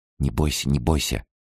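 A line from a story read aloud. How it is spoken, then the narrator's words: Whispering. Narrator (Russian): прошептала я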